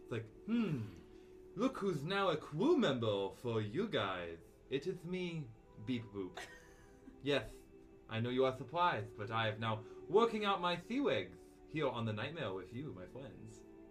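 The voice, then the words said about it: Character voice with a put-on accent. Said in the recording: “with an accent we didn't like ... I'm sorry, you don't like my accent?”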